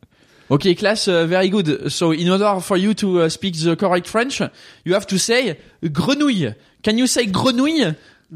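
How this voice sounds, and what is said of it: Put-on French accent speaking English. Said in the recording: “random accent challenge... I know that you're good at it... do a French person teaching a class of English people how to speak French in English”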